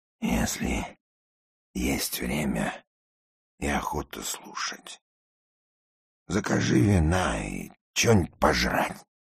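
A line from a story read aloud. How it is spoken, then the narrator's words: Gruff introductory mutter. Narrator (Russian): в порядке предисловия буркнул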